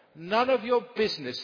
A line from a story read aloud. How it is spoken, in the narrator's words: said the rabbit